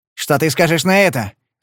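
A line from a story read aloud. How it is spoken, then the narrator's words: Shouting. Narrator (Russian): закричал этот тупица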